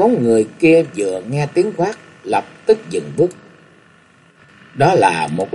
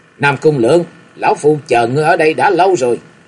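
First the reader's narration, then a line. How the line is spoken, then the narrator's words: Loud shout. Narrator (Vietnamese): lão quát lớn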